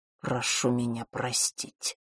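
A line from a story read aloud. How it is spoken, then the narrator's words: Muttering. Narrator (Russian): пробормотал Войт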